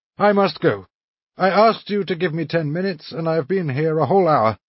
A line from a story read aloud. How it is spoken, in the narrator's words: he added, laughing